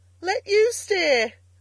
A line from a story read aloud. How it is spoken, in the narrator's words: replied, laughing